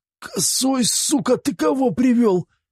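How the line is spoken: Desperate strained wheeze. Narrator (Russian): Отчаянно сверкая глазами, с трудом прохрипел

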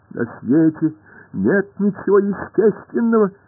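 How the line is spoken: Shrill little voice. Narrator (Russian): ответил пронзительным голоском мяч

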